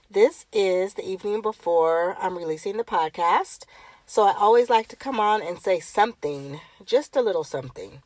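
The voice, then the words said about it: Sick-sounding voice. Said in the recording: “If you cannot hear it in my voice, I'm still under the weather ... I probably have a sinus infection”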